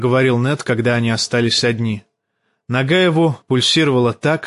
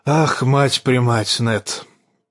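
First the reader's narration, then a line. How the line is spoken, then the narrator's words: Hoarse, king. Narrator (Russian): проговорил хриплым голосом король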